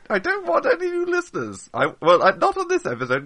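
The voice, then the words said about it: Very high-pitched wizard character voice. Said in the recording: “That's a very high pitched voice that I have because I have a cold.”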